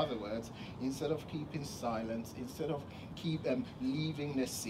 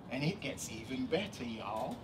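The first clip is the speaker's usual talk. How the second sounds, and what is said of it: Put-on Southern accent. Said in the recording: “my best Southern impression.”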